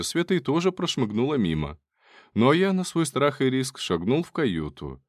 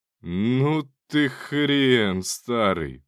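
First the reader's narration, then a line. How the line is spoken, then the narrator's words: Admiring drawl. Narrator (Russian): протянул я скорее восхищенно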